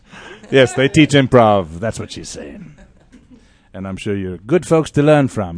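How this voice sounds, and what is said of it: Man with a distinctive accent. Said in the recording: “I'm just enjoying your voice, buddy. ... I wish I had that cool accent.”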